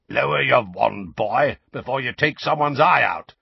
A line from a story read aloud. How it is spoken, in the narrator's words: said a low, growling voice